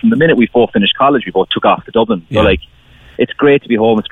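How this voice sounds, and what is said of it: Returning Cork Irish accent. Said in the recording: “the accent is coming back now as well.”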